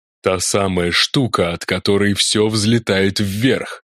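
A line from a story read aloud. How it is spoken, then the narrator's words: Hissing. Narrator (Russian): прошипел Олаф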